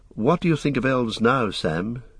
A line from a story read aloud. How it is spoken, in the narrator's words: he said